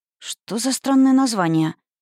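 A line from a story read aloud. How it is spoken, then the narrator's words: Muttered. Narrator (Russian): пробормотала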